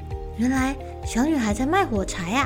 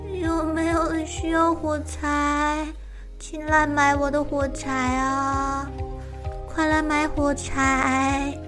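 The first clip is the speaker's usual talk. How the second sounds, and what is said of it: Trembling little girl's voice. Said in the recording (Chinese): “用颤抖的声音说着”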